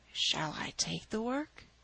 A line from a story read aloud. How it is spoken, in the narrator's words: whispered